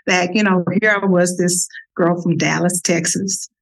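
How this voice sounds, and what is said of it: Texas accent. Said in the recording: “with a Texas accent that I'm sure you all can hear”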